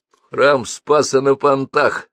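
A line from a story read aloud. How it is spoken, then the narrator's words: Snort. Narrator (Russian): хмыкнул Бабст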